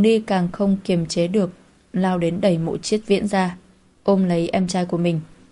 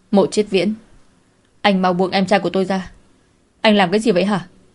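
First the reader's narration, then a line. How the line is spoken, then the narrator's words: Frantic furious scream. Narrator (Vietnamese): Cô như mất đi lý trí, tức giận hét lớn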